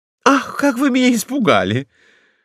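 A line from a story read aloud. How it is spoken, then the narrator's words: Exclaiming. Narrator (Russian): воскликнула Лайка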